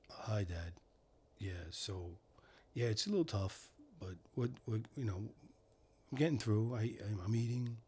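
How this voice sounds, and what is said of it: Low whispered imitation of another person. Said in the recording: “But he whispers. ... do his voice? ... he's very low”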